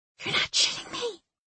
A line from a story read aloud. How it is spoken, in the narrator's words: she whispered